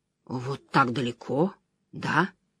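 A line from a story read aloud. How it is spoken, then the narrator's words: Quiet minstrel. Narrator (Russian): негромко проговорил министрель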